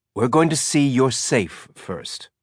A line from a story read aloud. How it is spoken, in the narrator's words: said